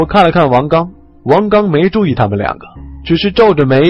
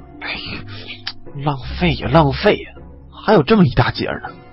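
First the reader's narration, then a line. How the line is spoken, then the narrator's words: Muttering. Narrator (Chinese): 李存壮嘴里嘀咕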